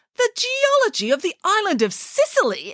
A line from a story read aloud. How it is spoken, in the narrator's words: exclaimed Nanny Piggins